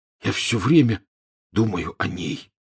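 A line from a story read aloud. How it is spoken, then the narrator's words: Hoarse. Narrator (Russian): хрипло сообщил Рон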